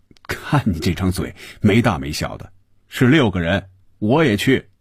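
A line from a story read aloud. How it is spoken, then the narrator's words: Smiling. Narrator (Chinese): 红军笑着说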